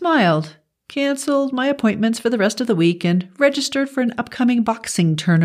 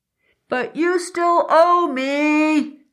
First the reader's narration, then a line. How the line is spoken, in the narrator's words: I shouted